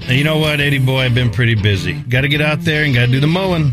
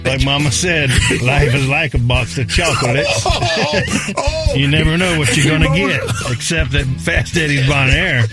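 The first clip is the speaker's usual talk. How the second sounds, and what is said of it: Forrest Gump impression, slow Southern drawl. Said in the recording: “my best Forrest Gump impression”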